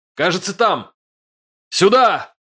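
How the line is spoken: Shout. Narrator (Russian): крикнул я

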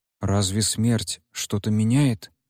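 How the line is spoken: Stubborn cat's mutter. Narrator (Russian): упрямо пробормотал кот

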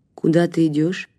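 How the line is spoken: Plain. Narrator (Russian): спросила она

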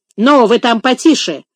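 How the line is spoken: Sharp, offended rebuke. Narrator (Russian): прикрикнула на них Дина, принявшая последние слова на свой счет

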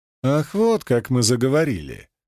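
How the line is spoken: Scoffing. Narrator (Russian): хмыкнул я

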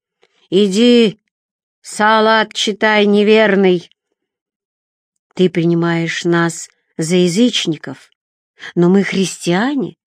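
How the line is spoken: Calm remark. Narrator (Russian): спокойно заметил отец Теофил

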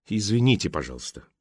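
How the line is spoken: Muttering. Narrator (Russian): пробормотал Алекс

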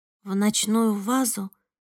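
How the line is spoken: Weak voice. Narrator (Russian): слабым голосом повторила я

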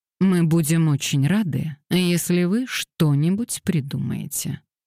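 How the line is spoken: Dry tone. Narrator (Russian): сухим тоном сказал Мэтью

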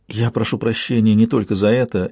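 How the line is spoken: Barely audible. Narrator (Russian): еле слышно сказала она

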